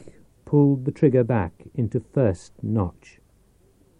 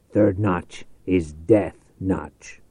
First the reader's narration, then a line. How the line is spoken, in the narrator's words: he growled